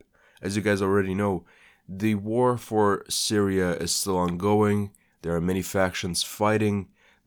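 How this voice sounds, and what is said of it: Sick, slightly odd-sounding voice. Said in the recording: “I'm a little sick this week, so I apologize if the podcast sounds a little bit odd or my voice sounds a little bit odd.”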